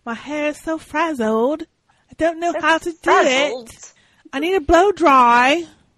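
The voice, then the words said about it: Attempted Essex accent. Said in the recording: “I can't even do the accent ... I can't do that accent. I gotta practice my accent. ... An Essex blow dry.”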